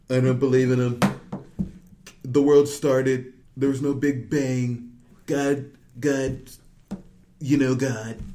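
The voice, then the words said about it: Imitates another person's voice. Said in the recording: “I don't like doing Trump impersonations... That even sounded like Donald Trump.”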